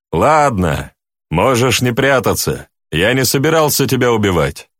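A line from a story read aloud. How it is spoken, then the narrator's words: Loud. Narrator (Russian): громко сказал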